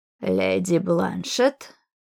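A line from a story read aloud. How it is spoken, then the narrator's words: Creaky voice. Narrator (Russian): Проскрипел он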